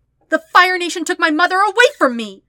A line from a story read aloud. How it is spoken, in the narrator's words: Katara yells